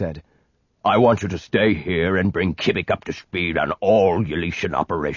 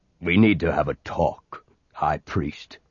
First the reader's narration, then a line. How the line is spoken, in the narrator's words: he said gruffly